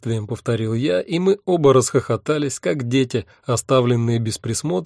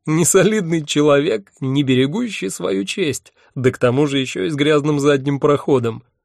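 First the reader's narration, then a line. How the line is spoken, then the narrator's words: Moaned through laughter. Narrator (Russian): сквозь смех простонал я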